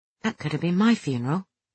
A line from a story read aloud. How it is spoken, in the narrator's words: I said quietly